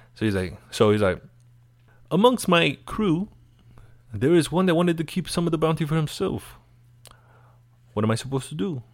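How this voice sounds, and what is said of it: Put-on accent for a character. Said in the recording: “I'm sorry if I couldn't keep that accent, but I'll try.”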